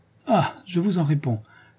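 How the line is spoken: Exclaiming with deep conviction. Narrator (French): s'écria-t-il avec l'accent d'un homme profondément convaincu

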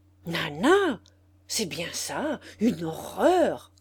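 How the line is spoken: Angry shout. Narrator (French): cria Madame Hugon qui se fâchait

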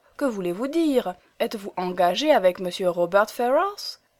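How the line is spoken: Exclamation. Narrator (French): s'écria Elinor

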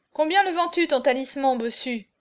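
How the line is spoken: Exclaimed. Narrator (French): s'écria Auriol

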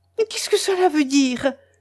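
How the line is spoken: Exclaiming. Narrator (French): s'écria Mélanie

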